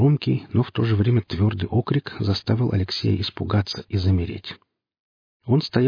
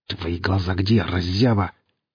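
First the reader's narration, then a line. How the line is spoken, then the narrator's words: Angry, through clenched teeth. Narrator (Russian): зло процедил Гриф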